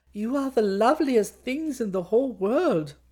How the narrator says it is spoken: she cried

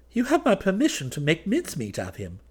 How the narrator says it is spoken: replied the kinglet cheerfully

